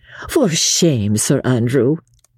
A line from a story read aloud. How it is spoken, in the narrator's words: she said, shaking her head with a playful sigh